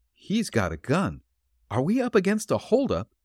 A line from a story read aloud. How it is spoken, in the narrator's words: exclaimed Patsy a bit derisively